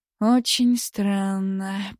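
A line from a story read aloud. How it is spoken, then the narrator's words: Slow. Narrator (Russian): проговорил он медленно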